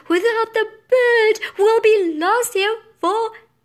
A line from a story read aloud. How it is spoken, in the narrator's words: She sobbed